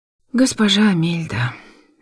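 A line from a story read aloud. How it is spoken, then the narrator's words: Sighed. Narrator (Russian): вздохнула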